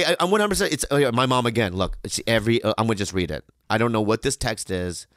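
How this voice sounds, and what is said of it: Usual voice. Nothing is said of it.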